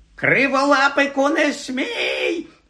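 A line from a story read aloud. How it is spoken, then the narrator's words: Shrieked by witch. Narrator (Ukrainian): заверещала відьма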